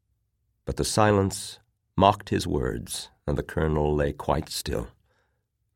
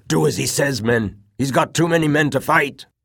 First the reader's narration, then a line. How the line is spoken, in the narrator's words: the veteran corporal shouted out